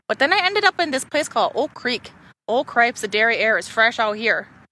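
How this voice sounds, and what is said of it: Put-on Wisconsin accent. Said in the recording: “with a Wisconsin accent”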